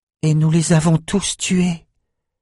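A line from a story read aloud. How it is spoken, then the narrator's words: Pale, breathless whisper. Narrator (French): souffla Ambre livide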